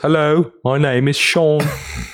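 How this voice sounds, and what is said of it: Put-on British accent. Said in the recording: “Probably sounds like this ... He's British.”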